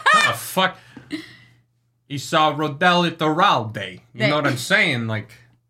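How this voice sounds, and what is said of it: Put-on New York City accent. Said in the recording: “pronounce Rodel's name in in a New York City accent.”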